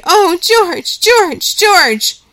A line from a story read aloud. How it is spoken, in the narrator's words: And he cried